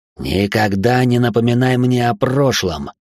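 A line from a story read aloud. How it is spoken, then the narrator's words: Growled. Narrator (Russian): прорычал он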